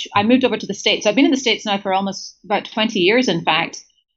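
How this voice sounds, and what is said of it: British Scottish accent. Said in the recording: “you have a very British accent ... good pickup on the accent. I did grow up in Scotland”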